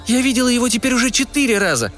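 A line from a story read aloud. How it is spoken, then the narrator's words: Exclaiming. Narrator (Russian): воскликнула Уна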